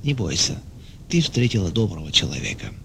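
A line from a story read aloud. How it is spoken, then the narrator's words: Gentle whisper. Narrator (Russian): А другой ласково шептал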